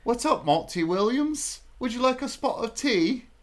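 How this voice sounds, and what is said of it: Put-on British accent. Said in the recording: “accents ... I came up with a British thing”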